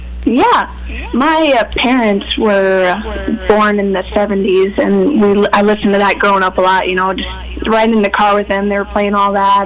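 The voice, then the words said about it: Southern American accent. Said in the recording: “somehow I have a southern accent”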